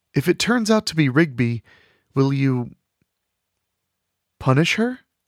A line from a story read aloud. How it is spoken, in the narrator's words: Delphine stammered